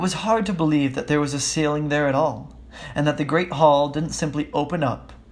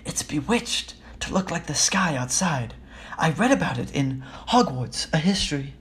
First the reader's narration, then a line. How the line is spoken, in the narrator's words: Hermione whisper